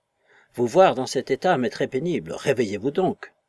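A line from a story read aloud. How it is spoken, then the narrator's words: Frightened cry, close to ear. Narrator (French): s'écriait-il d'une voix effrayée, et fort près de cette oreille délicate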